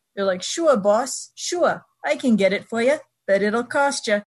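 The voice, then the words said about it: New York henchman accent. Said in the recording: “New York accent ... every time you hear somebody on television talking with a New York accent, they're a henchman”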